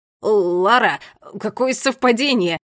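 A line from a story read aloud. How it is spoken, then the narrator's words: Flustered babble. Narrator (Russian): пролепетал юноша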